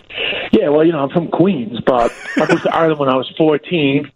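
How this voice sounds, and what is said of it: New York accent. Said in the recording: “I hear a guy with a New York accent”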